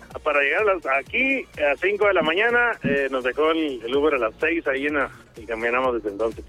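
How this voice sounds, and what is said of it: Northern Mexican Spanish accent. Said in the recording (Spanish): “¿Por tu acento? ¿Del norte, por ahí?”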